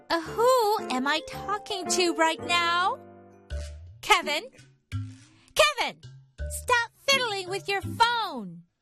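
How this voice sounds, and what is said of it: Shouting angrily. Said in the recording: “why are you screaming”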